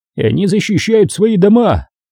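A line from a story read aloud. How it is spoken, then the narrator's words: Exclaimed. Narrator (Russian): воскликнул Тре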